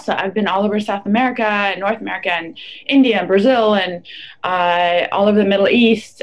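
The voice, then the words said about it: Slightly unusual English accent. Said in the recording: “accent that's a little. Um, you know, unique”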